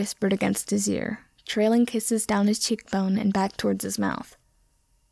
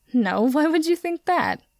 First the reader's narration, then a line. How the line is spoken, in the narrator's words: Harry asked through his giggles